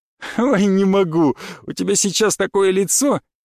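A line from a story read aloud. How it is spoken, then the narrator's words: Uncontrollable laughter. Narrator (Russian): Она смеялась и все никак не могла успокоиться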